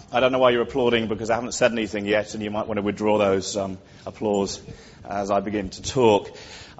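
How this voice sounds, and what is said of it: Non-Australian sounding accent. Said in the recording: “Despite what my accent might sound like, I am a naturalised Australian”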